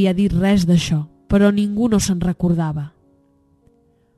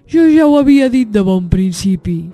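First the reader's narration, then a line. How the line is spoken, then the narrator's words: Exclaiming bear. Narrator (Catalan): va exclamar l'os blanc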